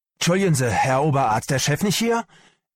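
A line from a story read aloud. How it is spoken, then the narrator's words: Called out excitedly. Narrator (German): rief Pelz aufgeregt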